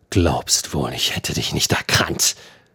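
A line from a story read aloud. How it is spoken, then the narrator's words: Hissing. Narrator (German): zischte der Sen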